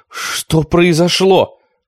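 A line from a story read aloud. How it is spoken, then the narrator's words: Shouting. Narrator (Russian): кричала она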